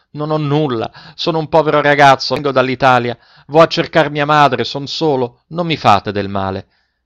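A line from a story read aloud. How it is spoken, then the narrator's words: Frantic shout. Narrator (Italian): egli smarrì la ragione e gridò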